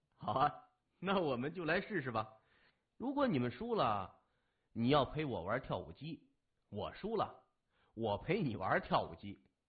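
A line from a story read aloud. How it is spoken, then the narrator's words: Amused, laughing. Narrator (Chinese): 青年被他可爱的样子逗笑了，说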